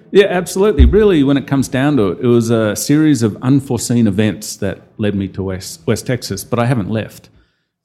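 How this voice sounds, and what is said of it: Non-Texan accent, not a twang. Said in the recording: “accent lets me know that it's a little bit different from the typical West Texas twang”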